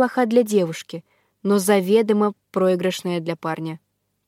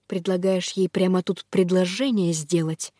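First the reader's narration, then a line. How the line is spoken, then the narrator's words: Whispered snap. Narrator (Russian): Шепотом огрызнулся он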